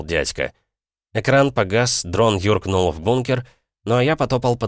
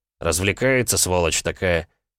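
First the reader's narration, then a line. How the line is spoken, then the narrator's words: Grumbling. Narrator (Russian): ворчал я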